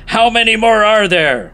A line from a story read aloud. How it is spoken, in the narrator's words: He's yelling